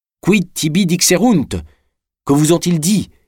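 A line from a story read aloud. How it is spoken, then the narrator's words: Loud shout from afar. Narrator (French): cria-t-il d'une voix forte, du plus loin qu'il l'aperçut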